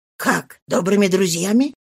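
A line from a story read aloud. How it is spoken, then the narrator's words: Uneasy mutter. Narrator (Russian): пробормотал он с внезапным беспокойством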